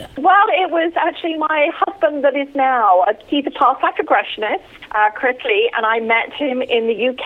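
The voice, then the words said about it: British accent. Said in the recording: “born in the UK ... the accent's not gone. Everything's just Americanized now.”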